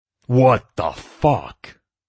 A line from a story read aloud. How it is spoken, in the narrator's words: Detective Allison roared in shock